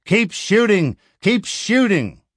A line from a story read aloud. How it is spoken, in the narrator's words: Vern bellowed to Steve, his cameraman